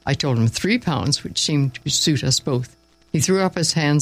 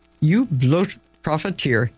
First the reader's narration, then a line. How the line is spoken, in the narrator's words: he exclaimed